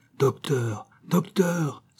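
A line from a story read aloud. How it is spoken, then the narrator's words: Exclaiming. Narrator (French): s'écria Biot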